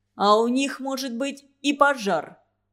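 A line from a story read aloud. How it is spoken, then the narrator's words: Interceding. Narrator (Russian): вступился Нестор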